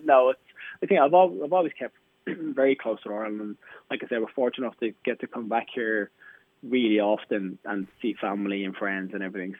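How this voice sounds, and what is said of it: Irish accent. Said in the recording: “I've been in the UK longer than I was in Ireland ... at least I've never lost my accent”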